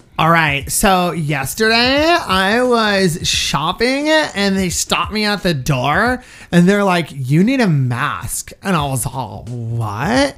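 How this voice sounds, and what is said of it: Exaggerated valley girl voice. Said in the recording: “do your typical girl voice ... Very valley girly.”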